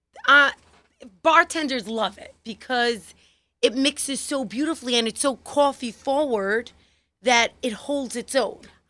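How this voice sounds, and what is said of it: Thick New York accent. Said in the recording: “I like how you say coffee ... I'm a real New Yorker ... you have a very thick New York accent”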